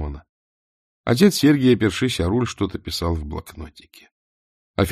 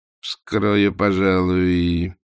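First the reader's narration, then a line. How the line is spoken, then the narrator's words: Drawling. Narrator (Russian): протянул Скукин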